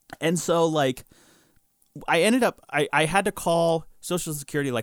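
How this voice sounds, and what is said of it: Usual voice. Nothing is said of it.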